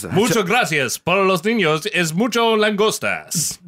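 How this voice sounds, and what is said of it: Mock Spanish accent. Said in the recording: “that's a Spanish accent”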